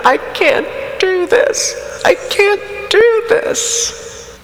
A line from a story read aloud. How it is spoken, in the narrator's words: great heaving sobs, I said to Ken